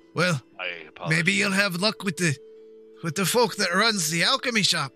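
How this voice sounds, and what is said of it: Thick dwarf character accent. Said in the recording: “I'm having an hard time with the accent. I don't meet many dwarves.”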